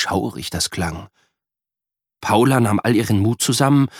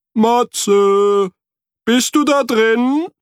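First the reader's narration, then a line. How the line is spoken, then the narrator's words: Echoing call. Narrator (German): rief Frederik und hörte ein Echo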